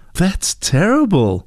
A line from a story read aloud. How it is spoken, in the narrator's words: exclaimed Heidi